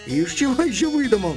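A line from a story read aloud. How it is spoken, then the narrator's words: Exclaiming. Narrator (Russian): воскликнул Федя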